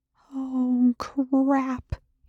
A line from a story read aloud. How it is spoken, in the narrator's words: Eli whispered